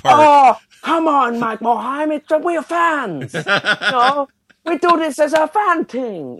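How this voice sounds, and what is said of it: Exaggerated put-on Asian accent. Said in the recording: “one of the most offensive Asian accents I've ever heard”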